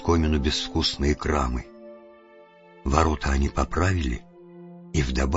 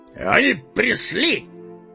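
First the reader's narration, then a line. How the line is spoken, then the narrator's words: Shout. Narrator (Russian): крикнул Балин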